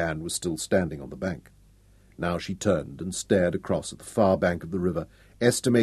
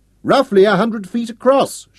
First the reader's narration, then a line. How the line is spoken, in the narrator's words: shouted up